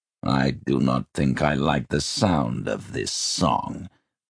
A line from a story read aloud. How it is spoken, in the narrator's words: growled Guthwulf